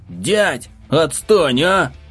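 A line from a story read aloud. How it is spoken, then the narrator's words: Desperate shout while running. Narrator (Russian): Прокричал на бегу я с отчаянием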